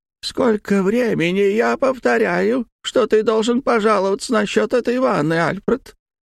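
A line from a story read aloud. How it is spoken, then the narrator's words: High shrill deaf voice. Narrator (Russian): вдруг сказала она высоким пронзительным голосом, свойственным глухим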